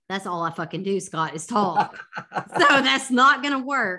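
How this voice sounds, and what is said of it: Non-British accent. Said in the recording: “I'm British, whatever. I could live in the UK and everybody would be totally fine with that... Except for my accent... Yeah, except for your accent. You'd have to not talk.”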